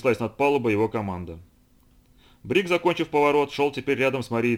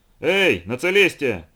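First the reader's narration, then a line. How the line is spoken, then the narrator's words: Shout through megaphone. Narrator (Russian): крикнул в медный рупор Морхаус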